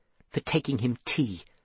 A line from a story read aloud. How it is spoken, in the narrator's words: said Seth quietly